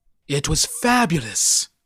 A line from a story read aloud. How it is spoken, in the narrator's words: moaned the voice